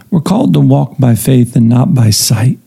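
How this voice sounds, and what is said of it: Strained, fading voice. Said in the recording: “I'm losing my voice here today.”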